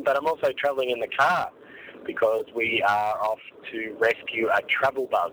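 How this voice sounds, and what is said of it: Sore-throated, slightly altered voice. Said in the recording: “with a bit of a sore throat. That's why I sound a bit different.”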